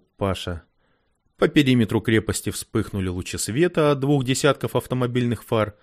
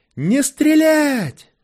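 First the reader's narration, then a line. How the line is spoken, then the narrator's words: Yelling in a strained voice. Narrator (Russian): не своим голосом заорал Паша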